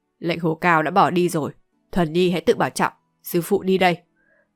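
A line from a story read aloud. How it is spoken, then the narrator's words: Cold, indifferent. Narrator (Vietnamese): Ngọc Tiêu thần ni với giọng lạnh nhạt nói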